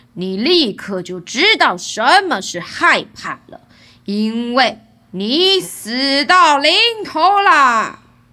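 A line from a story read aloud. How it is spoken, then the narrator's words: Roaring. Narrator (Chinese): 他吼叫着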